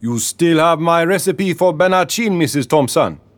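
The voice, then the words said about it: Deep Caribbean accent character voice. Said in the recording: “He spoke in a deep Caribbean accent.”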